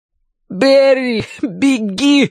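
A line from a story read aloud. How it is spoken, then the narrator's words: Exhausted, strained shout. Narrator (Russian): из последних сил крикнул Мэтью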